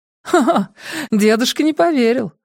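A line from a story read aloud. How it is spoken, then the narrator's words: Laughing. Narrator (Russian): рассмеялась София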